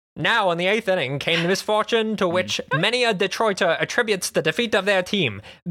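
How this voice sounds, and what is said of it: Old-time sports announcer voice. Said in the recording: “do the announcer voice.”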